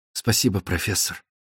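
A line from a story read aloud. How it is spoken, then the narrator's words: Barely audible. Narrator (Russian): чуть слышно промолвила Лора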